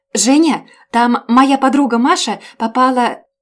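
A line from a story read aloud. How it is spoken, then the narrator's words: Panicked shout. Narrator (Russian): в панике прокричав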